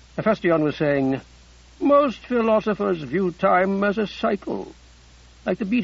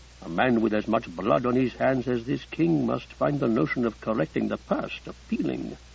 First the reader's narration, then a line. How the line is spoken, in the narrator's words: Abdikadir murmured to Bessessa